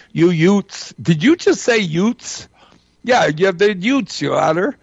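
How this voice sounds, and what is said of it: Put-on New York Bronx accent. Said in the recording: “with his New York Bronx accent”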